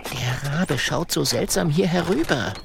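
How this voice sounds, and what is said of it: Whispering. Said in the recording (German): “flüstert der kleine Drache”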